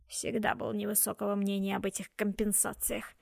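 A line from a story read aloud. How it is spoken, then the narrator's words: Grumbling old man. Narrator (Russian): ворчал старик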